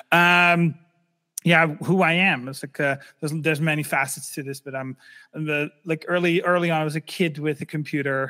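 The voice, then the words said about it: Slight Dutch accent. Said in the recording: “I'm originally from the Netherlands. Sometimes I still have a slight accent, but it's not that big anymore.”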